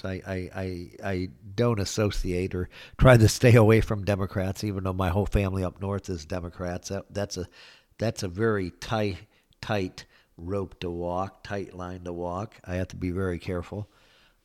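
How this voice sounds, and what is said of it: Sarcastic delivery. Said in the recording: “I'm being sarcastic there.”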